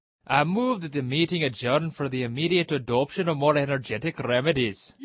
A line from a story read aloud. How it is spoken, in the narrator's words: said the dodo, solemnly